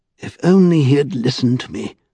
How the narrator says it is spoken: sighed Mr

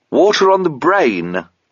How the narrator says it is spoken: replied the corporal cheerfully, and rather ambiguously

